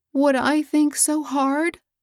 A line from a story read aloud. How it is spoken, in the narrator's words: sobbed poor Mabel